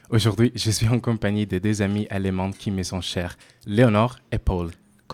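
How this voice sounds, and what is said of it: Italian accent speaking French. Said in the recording (French): “comme vous l'avez peut être deviné à mon accent, je suis italienne.”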